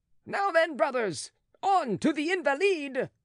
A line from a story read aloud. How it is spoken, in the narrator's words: shouted Marat in his turn